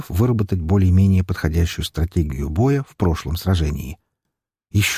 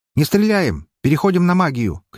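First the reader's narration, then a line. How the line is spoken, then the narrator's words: Shout. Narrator (Russian): крикнул я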